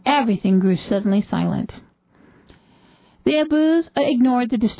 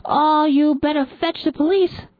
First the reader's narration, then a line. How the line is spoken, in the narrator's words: someone shouted